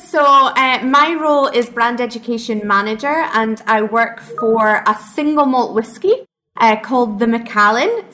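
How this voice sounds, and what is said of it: Scottish accent. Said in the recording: “single malt from Scotland, where you can tell from my accent, we're both from”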